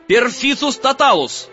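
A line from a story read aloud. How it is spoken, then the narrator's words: Shouting again. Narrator (Russian): опять закричал Гарри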